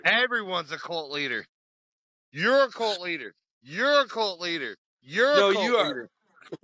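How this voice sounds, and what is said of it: Imitates another person's voice. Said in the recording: “your fucking impression of, what's her name? ... Oprah.”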